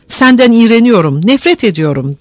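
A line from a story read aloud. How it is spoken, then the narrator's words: Shouting. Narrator (Turkish): diye bağırdı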